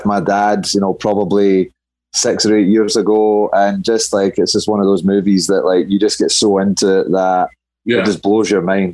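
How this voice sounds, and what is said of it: Scottish accent. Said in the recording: “for a Scotsman ... with my accent,”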